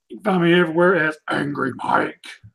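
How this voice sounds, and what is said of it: Gravelly Cookie Monster character voice. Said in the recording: “Look at that Cookie Monster voice.”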